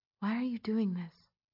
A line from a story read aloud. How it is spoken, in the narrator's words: she asked in a whisper